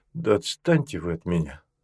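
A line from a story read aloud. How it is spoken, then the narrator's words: Grumbling. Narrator (Russian): Гамов проворчал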